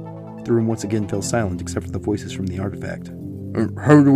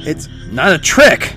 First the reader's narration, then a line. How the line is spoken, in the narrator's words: Morton shouted